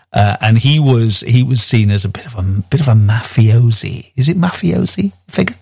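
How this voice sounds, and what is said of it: Whispering. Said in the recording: “I don't know why I'm whispering it.”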